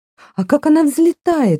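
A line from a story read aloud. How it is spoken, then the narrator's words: Exclaiming. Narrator (Russian): воскликнула она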